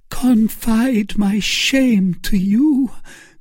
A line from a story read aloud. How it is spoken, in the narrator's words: cried Milady, with the blush of modesty upon her countenance